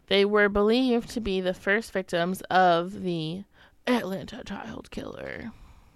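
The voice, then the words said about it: Dramatic crime-TV narrator voice. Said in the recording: “gave it that voice... It sounds very America Most Wanted.”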